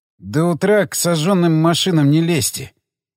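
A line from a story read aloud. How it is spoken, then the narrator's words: Forced out with effort. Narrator (Russian): Сумел я, наконец, выдавить из себя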